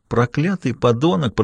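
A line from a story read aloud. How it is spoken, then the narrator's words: Muttered through clenched teeth. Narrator (Russian): процедил он сквозь зубы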